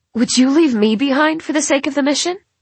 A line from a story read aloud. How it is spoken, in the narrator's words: ask hotly